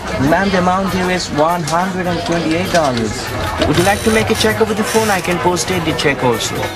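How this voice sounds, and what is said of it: Indian English accent. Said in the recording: “their Indian accents ... what is this funny accent”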